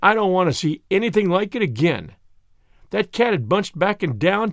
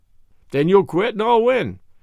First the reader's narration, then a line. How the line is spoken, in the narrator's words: says Rocky with a laugh